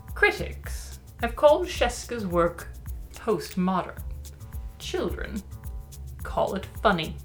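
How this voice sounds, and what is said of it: Lofty, haughty reading voice. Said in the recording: “I can't do a British accent, so I'm gonna just say it loftily.”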